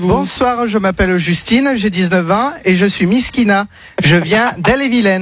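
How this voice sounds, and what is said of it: Put-on regional accent. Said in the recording (French): “Pourquoi il prend cet accent?”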